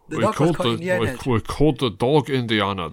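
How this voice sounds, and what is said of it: Bad imitation of another person's voice. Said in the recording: “That's my Sean Connery impression. It's pretty bad, but there are no S's.”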